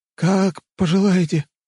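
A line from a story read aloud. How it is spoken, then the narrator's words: Trembling voice. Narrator (Russian): дрожащим голосом ответил слуга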